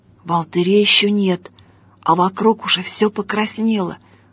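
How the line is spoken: Whisper. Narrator (Russian): шепотом сказал Гриша

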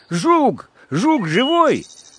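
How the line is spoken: Crying question. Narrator (Russian): заплакал и спросил

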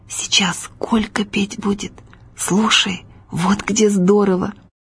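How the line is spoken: Quiet whisper. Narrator (Russian): приятель Витька и тихо шепнул

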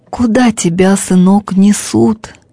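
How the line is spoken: Hoarse, unrecognizable question. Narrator (Russian): каким-то неузнаваемым, осипшим голосом спросил отец

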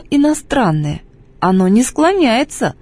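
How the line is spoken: Stern sovereign. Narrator (Russian): строго говорит государь

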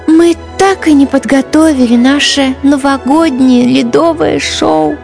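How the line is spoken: Heavy sigh. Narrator (Russian): Тяжело вздохнула Ангелина

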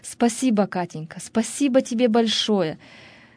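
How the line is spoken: Joyful laughing repetition. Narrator (Russian): он рассмеялся от радости и постоянно повторял

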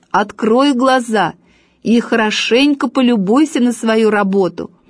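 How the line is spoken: Shouting. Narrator (Russian): Папа закричал

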